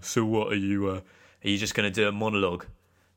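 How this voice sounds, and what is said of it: Imitates another person's voice. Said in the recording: “I'll do my Tony impression now”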